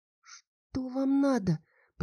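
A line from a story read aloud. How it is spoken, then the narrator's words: Barely audible babble. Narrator (Russian): пролепетала я одними губами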